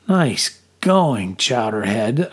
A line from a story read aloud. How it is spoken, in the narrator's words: I groaned to myself